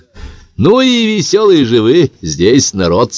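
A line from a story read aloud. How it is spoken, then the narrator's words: Laughing. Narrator (Russian): сказал смеясь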